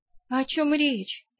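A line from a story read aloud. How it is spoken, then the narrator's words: Indignant. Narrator (Russian): я возмущенно поморщилась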